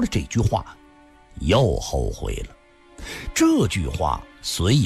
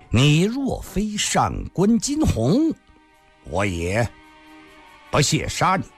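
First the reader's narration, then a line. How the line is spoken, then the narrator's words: Cold sneer. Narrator (Chinese): 吕凤仙冷笑了一声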